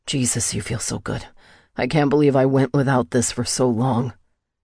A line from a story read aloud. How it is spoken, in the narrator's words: panted